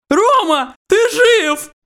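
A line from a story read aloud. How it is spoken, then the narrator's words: Joyful exclamation. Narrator (Russian): радостно воскликнул я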